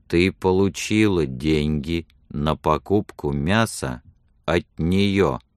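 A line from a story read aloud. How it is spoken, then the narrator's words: Slow. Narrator (Russian): медленно произнес он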